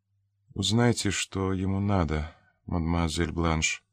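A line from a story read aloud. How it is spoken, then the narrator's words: Barely audible, bedridden woman. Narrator (Russian): еле слышно сказала лежавшая на кровати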